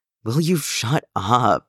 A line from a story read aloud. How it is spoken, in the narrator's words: Danny groaned, pressing his face against Jason's chest